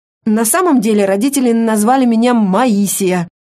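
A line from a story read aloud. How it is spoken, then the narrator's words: Man's wry snort. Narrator (Russian): мужчина хмыкнул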